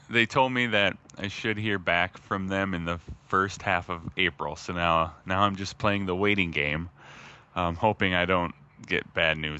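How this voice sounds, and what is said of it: Gruff, deeper early-morning voice. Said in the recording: “my voice sounds more gruff than usual. I sound more manly. There's more bass. ... There is more bass.”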